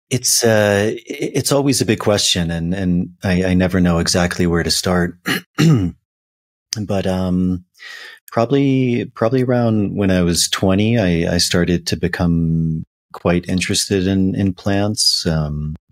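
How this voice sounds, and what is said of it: Slightly hoarse voice. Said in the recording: “my voice is a little hoarse,”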